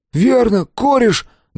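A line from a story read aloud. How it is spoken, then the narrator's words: Trembling voice. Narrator (Russian): дрожащим голосом подхватил Том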